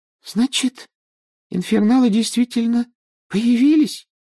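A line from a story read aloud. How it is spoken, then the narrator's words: Thin little voice, asking. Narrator (Russian): тоненьким голоском спросила Парвати Патил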